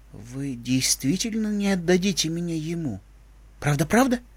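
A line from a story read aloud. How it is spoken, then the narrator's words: Quiet question. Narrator (Russian): Единорожка тихо спросила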